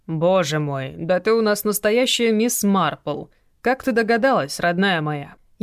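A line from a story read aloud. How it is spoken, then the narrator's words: Sarcastic teasing. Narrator (Russian): Язвительно поддел Александр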